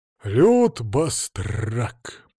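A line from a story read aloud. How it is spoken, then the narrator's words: Deep bass voice. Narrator (Russian): пробасил Владимир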